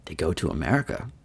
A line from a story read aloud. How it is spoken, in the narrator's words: murmured Lord Henry